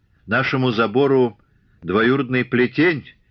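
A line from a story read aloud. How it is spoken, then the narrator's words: Rude reply. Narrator (Russian): грубо ответила Ильинична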